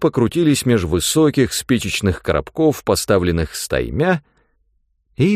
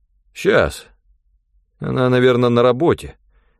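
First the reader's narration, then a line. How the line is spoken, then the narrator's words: Uncertain. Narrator (Russian): неуверенно сказал Санька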